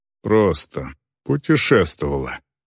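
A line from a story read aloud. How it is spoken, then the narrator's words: Muttering female orc. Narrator (Russian): пробормотала орка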